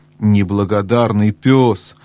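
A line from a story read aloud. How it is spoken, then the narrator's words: Exclaimed. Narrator (Russian): воскликнул Бри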